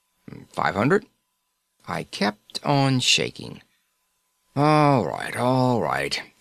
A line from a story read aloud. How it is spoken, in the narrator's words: he grumbled